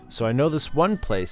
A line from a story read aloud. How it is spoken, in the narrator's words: said Hunter